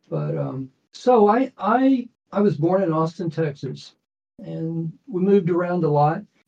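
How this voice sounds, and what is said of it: Slightly hoarse voice. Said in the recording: “Pardon my voice. I've got allergies and I'm a little bit hoarse.”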